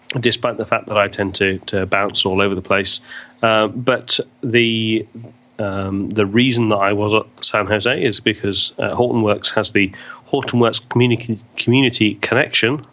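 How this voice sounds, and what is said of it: Non-American, British-sounding accent. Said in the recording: “you may hear by my voice, it's not an American accent. ... I live in the UK”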